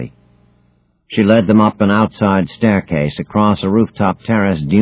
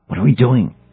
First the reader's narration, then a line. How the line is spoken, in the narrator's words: whispered Harmon